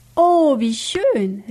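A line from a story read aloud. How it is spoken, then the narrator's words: Exclaimed. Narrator (German): rief Kato-san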